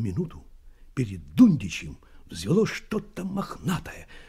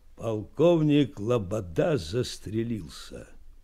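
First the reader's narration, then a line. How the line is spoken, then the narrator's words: Dull muffled voice. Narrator (Russian): глухо сказал чей-то голос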